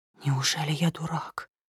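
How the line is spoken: Whisper. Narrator (Russian): прошептал министр

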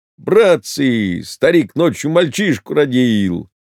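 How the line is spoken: Loud laughing shout. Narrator (Russian): Он громко засмеялся и крикнул

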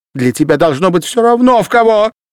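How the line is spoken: Shouting. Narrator (Russian): крикнула Софья Петровна

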